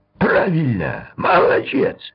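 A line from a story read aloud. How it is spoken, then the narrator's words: Exclaimed. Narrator (Russian): воскликнул капитан Гасанзаде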